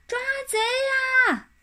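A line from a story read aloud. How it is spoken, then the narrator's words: Desperate yell. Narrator (Chinese): 马小跳拼命的叫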